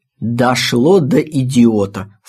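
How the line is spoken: Plain. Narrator (Russian): сказала Марина

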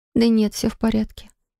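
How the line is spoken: Quiet reply. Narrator (Russian): ответила она тихо

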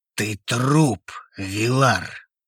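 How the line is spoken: Hissed. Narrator (Russian): прошипел одногруппник

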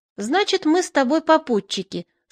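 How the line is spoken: Calm. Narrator (Russian): спокойно сказал Печерица

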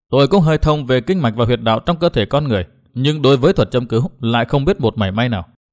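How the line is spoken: Smiling. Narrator (Vietnamese): chàng ta mỉm cười

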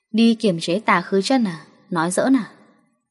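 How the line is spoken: Stunned, mocking. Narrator (Vietnamese): Tân Trạch Anh thoáng ngây người, cười mỉa mai

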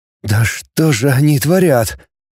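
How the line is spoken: Trembling voice. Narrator (Russian): дрожащим голосом проговорил Кнуров

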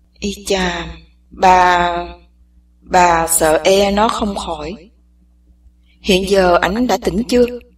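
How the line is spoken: Old man sighs. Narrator (Vietnamese): Lão chỉ thở dài nói

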